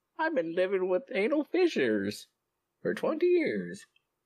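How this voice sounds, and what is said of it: Put-on old lady voice. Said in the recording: “You're committed to that voice. ... Am I an old lady? Is that the old lady voice? ... You're committed to whatever that voice is”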